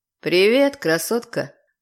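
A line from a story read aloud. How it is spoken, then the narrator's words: Low lazy drawling male. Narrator (Russian): Раздался на другом конце низкий мужской голос, лениво растягивающий слова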